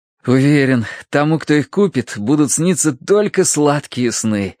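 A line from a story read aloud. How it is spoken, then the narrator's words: Blissful sigh. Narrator (Russian): блаженно улыбаясь Тосси, вздохнул Терренс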